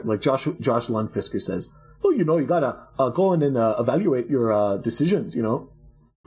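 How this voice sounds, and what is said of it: Weak put-on generic European accent. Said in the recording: “my generic European accent ... your Dutch accent sucks”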